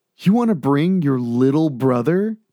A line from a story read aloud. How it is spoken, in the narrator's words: James asked with a chuckle